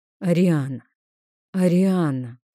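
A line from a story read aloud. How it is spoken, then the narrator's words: Tired, irritated exhale. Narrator (Russian): с усталостью и раздражением выдохнул дракон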